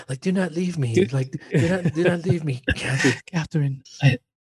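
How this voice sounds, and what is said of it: Put-on whiny English accent. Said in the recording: “He's whining, and he's whiny about it, right? ... I'm using your English accent now.”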